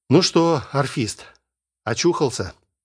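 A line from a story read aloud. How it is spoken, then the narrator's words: Gentle inquiry. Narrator (Russian): ласково поинтересовался Сергей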